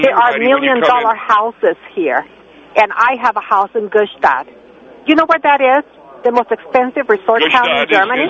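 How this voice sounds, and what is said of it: German accent. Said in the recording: “I detect a very delightful accent ... Germany.”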